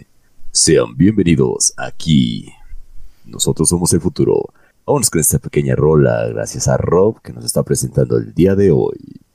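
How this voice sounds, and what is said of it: Sonidero radio announcer voice. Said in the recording (Spanish): “puede hacer unas voces sonideras así como de ... voz de locutor sí tienes”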